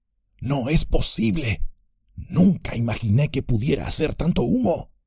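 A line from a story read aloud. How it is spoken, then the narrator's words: Hurried murmur. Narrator (Spanish): murmuró mientras subía deprisa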